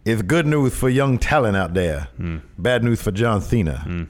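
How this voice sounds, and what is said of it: Dusty Rhodes impression. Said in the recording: “Hello, Dusty.”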